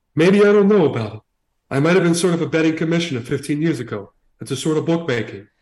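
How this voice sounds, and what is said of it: Put-on heavy Italian accent. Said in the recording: “read this quote from him in what you think is a heavy Italian accent”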